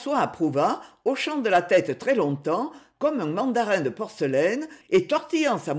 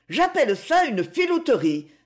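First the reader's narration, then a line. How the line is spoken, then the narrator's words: Exasperated exclamation. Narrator (French): s'écria-t-elle exaspérée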